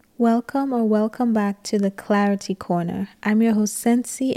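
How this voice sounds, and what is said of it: Voice cutting in and out. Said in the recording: “my voice is in and out”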